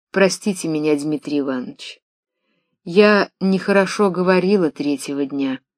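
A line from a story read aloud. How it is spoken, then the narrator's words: Quiet. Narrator (Russian): тихо сказала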